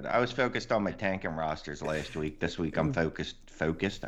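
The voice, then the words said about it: Slips into a non-Philly accent. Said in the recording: “I just picked up an accent there. That's definitely not Philly.”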